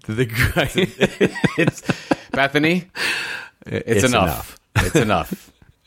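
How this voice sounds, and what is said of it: Put-on dad voice. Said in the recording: “I'm bringing in dad voice here.”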